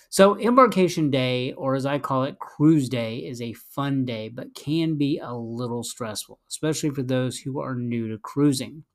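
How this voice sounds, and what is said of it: Slightly rough, sore-throat voice. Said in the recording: “I got a little bit of a sore throat, so my voice is a little off”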